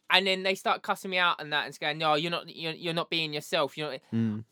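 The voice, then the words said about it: Essex London accent. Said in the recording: “I got that Essex London twang”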